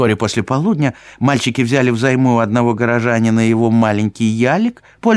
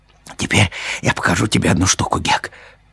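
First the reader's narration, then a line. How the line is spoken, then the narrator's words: Whispered. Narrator (Russian): шепнул Том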